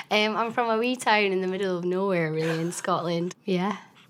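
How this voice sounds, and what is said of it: Scottish accent. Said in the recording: “I love your accent. ... everybody loves the Scottish accent”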